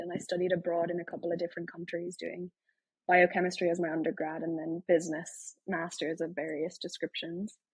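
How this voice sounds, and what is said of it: Irish accent. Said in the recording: “you can probably tell by the accent. I'm Irish from Ireland.”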